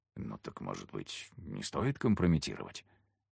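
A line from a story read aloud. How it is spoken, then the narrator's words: Whispered suggestion. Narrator (Russian): Шепотом выдвинул рациональное предложение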